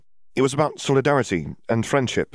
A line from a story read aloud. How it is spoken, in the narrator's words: she said, hoping that her tone sounded more confident to Skeeter's ears than to her own